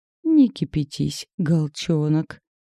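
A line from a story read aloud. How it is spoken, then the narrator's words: Mocking imitation. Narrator (Russian): передразнил Анатолий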